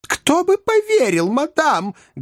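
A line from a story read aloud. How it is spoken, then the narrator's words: Angry exclamation. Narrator (Russian): гневно воскликнула миссис Редл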